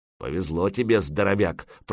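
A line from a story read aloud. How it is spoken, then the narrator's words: Grumbling. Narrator (Russian): проворчал Ворчун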